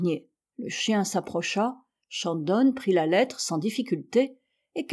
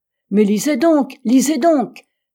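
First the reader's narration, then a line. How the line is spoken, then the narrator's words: Doctor exclaiming. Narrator (French): s'écria le docteur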